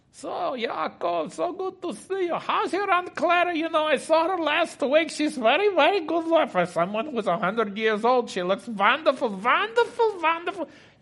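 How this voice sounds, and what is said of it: Put-on Jewish accent. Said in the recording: “That's my Jewish accent.”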